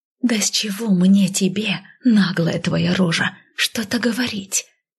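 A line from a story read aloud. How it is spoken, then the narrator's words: Hiss. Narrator (Russian): зашипела я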